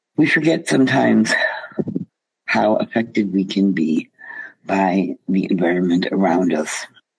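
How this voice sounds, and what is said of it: Voice sounds a little off. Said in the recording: “my voice may sound a little off because I am struggling with the air quality”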